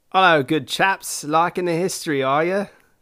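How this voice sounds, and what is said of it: Poor put-on British accent. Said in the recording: “gone British ... this poorly represented British accent”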